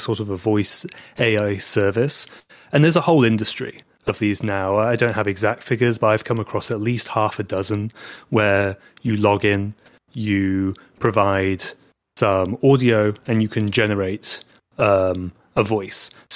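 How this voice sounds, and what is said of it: British English accent. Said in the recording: “my British accent”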